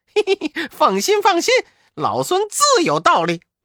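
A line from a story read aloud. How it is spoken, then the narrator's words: Laughing. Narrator (Chinese): 悟空笑道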